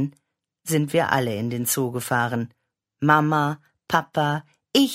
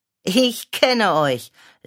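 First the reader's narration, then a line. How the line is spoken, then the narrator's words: Laughing. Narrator (German): lachte Mama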